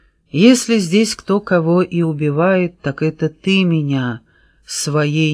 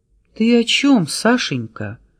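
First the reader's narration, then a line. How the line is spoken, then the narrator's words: Tender singsong. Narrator (Russian): ласково пропел Тимур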